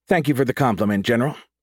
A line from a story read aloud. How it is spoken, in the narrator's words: Pyro said